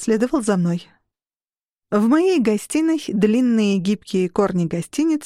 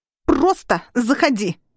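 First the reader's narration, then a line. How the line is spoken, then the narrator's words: Barked. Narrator (Russian): рявкнула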